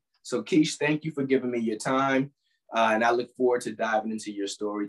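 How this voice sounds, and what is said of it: Raspy hoarse voice. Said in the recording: “You're going to be listening to the raspy sounds of ... Sorry for the raspiness today.”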